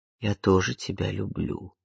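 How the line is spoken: Barely audible. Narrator (Russian): Тихо, едва слышно проговорил

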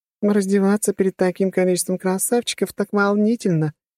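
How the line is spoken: Giggled. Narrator (Russian): хихикнула она

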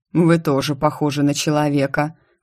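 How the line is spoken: Smirking snort. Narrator (Russian): хмыкнул Санс

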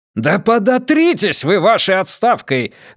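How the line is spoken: Furious shout. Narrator (Russian): вне себя закричал Колчев

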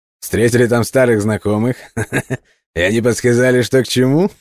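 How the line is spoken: Cheerful laughter. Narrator (Russian): Джордж снова весело рассмеялся

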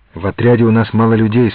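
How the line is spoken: Plain. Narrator (Russian): сказал я

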